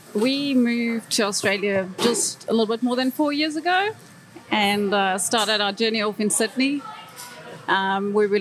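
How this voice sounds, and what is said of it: South African accent. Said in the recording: “this South African accent.”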